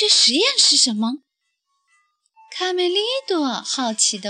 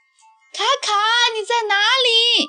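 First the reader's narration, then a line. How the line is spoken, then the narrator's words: Calling out. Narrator (Chinese): 继续呼喊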